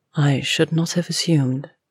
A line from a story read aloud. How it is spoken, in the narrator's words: she said quietly after a moment